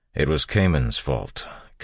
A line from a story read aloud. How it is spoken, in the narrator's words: Kelsier said firmly